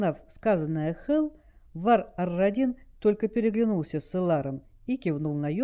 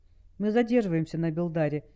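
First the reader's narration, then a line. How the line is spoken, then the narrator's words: Quiet matter-of-fact statement. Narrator (Russian): негромко констатировала факт Алекса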